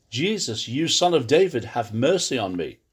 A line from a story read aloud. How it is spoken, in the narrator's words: he cried, saying